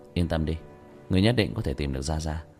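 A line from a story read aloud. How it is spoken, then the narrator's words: Sighing. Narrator (Vietnamese): Tiểu Thất thở dài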